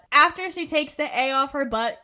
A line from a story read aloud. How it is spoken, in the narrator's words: Carly yells